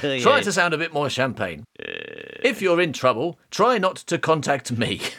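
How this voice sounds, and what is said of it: Really posh put-on accent. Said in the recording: “I'm doing a really posh accent.”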